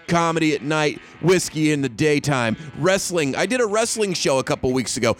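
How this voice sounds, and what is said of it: Worn-out, fading voice. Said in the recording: “You can hear my voice. My voice is leaving me.”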